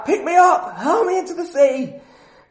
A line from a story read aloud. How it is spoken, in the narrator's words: Jonah shouts back